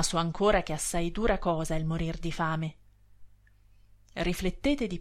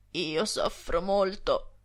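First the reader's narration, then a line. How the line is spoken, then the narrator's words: Sepulchral voice. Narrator (Italian): rispose egli con una voce da sepoltura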